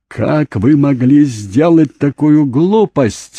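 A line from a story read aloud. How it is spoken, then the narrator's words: Yelling. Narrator (Russian): вопил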